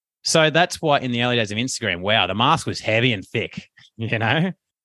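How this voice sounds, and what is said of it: Rough Western-suburbs Australian accent. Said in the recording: “my rough Westie accent ... in Australia, I say I put Y's on the end of everything”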